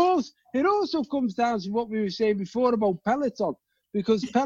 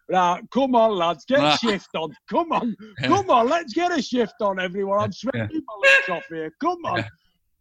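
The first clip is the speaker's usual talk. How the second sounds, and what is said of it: Imitates a hearty English fitness instructor. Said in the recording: “You're not going to get an English fella go”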